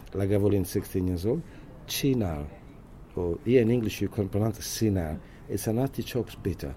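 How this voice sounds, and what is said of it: Italian accent. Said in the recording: “So I kept the Italian name, as you can hear the accent as well.”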